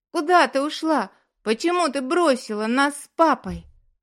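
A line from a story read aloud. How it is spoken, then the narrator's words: Shouting. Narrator (Russian): закричал он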